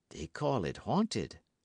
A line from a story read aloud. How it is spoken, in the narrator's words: lowering his voice